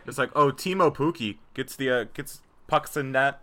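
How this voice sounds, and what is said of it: Put-on Canadian accent. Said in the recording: “You can just hear that name in a Canadian accent”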